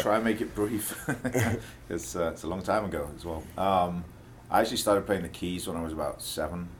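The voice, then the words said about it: Mixed Welsh, English and American accent. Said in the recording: “my accent's got a little strange these days. It's a mix of Welsh and English and American, you know, bi-coastal American.”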